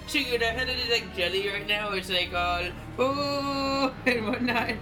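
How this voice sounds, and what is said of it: Speaks in a put-on accent. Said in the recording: “accent”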